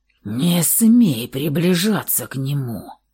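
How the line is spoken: Unrecognizable growl. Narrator (Russian): прорычал он неузнаваемым голосом

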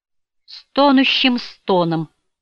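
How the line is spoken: Moaning. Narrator (Russian): Эдом простонал

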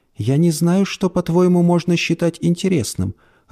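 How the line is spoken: Timid. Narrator (Russian): робко ответила женщина

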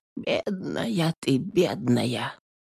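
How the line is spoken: Sighing whisper. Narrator (Russian): только охала да шептала

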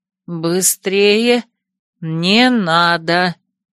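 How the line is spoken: Deliberate, clipped words. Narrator (Russian): раздельно произнесла я

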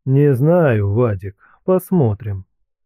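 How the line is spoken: Gentle, affectionate. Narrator (Russian): ласково отвечал ему мужик

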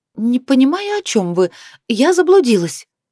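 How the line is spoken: Sharp statement. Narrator (Russian): резко заявила Лиана

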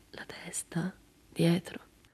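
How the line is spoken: Murmur. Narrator (Italian): Lei mormorò

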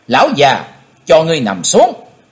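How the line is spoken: Loud yell. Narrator (Vietnamese): hét to lên

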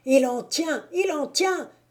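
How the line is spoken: Shouted. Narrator (French): cria Moquet

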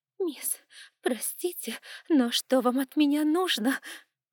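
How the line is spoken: Whimpering maid. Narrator (Russian): хныкала горничная

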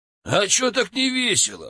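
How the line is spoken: Scoffing. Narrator (Russian): хмыкнул Сергей

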